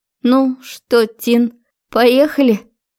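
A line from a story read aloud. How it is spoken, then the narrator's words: Trembling question. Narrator (Russian): дрожащим голосом спросила подруга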